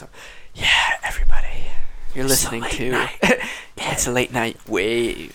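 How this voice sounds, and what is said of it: Soft, low voice. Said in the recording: “I'm going to start talking in a soft voice.”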